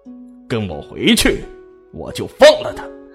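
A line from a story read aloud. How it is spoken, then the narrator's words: Cold. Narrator (Chinese): 冷冷地说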